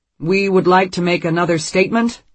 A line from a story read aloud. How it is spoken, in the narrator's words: he says loudly